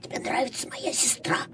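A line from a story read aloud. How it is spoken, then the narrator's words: Whisper. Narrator (Russian): он сказал шепотом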